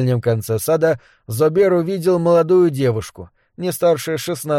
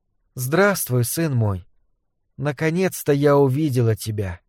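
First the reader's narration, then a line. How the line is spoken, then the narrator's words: Soft tender voice. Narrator (Russian): нежно посмотрев на Зобера, тихо произнесла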